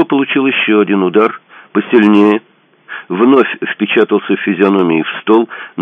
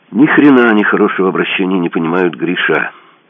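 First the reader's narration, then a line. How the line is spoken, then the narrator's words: Sad henchman's statement. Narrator (Russian): грустно констатировал один из подручных верзилы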